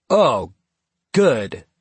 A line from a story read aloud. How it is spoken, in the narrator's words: Wes said a little too loudly